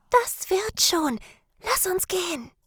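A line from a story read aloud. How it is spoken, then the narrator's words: Whispered. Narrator (German): flüsterte sie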